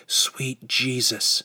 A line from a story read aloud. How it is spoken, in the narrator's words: whispered